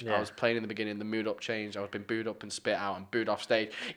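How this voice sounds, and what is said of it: Lancashire English accent. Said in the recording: “my shy Lancasterian accent”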